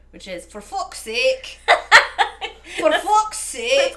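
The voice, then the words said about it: Put-on Irish accent. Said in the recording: “I can do an Irish accent with one phrase, too... That's all you need for an Irish accent.”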